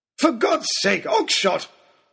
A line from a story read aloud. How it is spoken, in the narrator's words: bellowed Lord Daunt